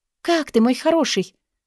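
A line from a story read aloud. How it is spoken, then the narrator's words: Baby talk cooing. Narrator (Russian): сюсюкает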